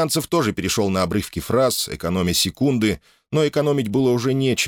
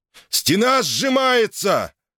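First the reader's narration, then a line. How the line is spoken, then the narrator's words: Hoarse croaking shout. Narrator (Russian): хрипло крикнул, словно каркнул Самвел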